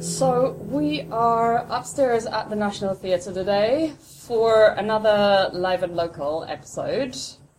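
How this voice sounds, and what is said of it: Speaks with a noticeable accent. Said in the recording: “if you can't tell from the accent”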